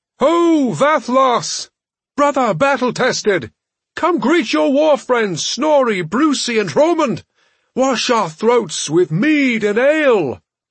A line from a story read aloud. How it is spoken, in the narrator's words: their leader cupped his hands around his mouth and called out